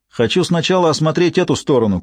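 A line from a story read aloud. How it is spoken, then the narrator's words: Shout over wind. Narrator (Russian): крикнул он, перекрывая вой ветра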